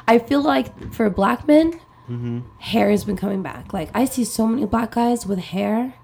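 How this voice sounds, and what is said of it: Hoarse, fading voice. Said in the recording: “losing my voice,”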